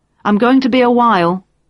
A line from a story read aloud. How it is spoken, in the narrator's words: called out